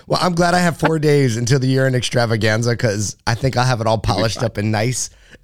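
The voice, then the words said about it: Hoarse, gravelly, nearly lost voice. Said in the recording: “My voice is gone from a week of talking... I sound like somebody totally different... I sound like a pro wrestler... my voice is just gone”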